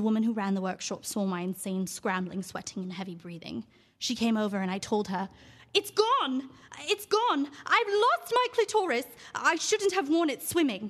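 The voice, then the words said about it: Put-on British accent. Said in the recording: “my monologue was going to be in a British accent”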